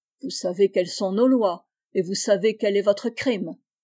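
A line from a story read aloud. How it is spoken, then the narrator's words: Cold hard voice. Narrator (French): répondit Alexis d'une voix froide et dure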